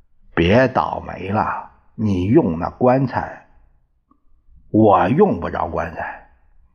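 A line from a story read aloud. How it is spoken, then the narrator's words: Cold. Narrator (Chinese): 卫兵冷冷地说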